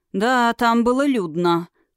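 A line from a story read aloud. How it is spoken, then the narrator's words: Wry snort. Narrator (Russian): хмыкнул дракон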